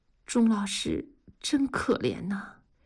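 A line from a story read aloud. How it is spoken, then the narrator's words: Murmured, pitying. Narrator (Chinese): 文丽看着钟老师的背影喃喃地说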